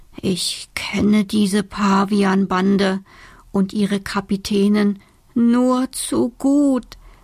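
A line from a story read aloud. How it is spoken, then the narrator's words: Trembling voice. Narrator (German): sagt mit zitternder Stimme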